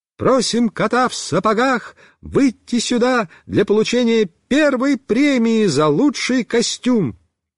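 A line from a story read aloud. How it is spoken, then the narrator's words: Ringing clear voice. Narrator (Russian): наша вожатая Люся сказала звонким голосом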